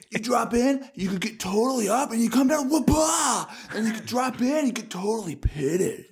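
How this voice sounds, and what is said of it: Surfer character voice. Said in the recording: “impersonate someone riding the tidal wave caused by the geostorm.”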